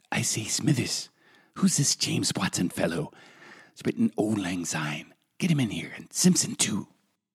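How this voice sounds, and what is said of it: Poor Montgomery Burns impression. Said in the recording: “That was possibly the worst Montgomery Burns imitation in the history of Simpson's imitations.”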